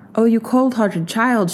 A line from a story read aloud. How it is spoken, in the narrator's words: she cried